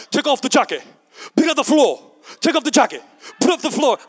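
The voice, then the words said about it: Bad Jackie Chan impression. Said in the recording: “one of the worst Jackie Chan impersonations you've ever heard”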